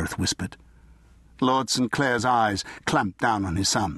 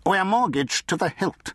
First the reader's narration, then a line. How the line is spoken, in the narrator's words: he said sharply